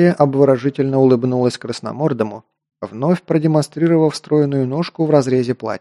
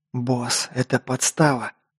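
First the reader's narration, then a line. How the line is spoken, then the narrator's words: Whispered. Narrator (Russian): шепнул Лок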